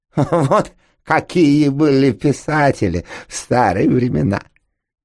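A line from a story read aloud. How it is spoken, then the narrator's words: Drunken laugh. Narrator (Russian): пьяно хохотнула Алиса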